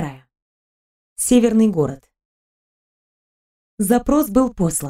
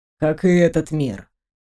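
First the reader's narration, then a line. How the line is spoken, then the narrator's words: Gloomy, impatient reply. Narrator (Russian): отозвался мрачно Дмитрий, теряя терпение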